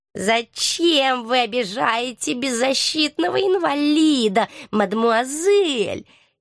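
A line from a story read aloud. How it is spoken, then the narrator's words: Creaky, offended old voice. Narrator (Russian): С неподдельной обидой в голосе проскрипел старик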